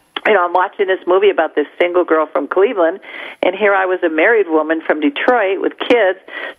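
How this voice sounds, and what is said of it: Midwestern American accent. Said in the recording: “what she considered to be my accent. Being from the Midwest, I guess my accent is identifiable to other people.”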